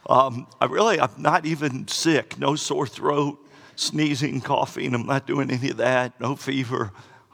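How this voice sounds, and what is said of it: Voice sounds like a teenage boy. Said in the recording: “I apologize for my voice. I sound like a high school boy. ... I just can't speak very well. ... I sound a little bad.”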